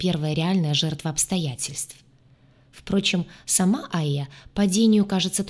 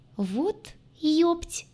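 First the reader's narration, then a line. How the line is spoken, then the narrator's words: Squeaked. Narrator (Russian): Только и пискнула я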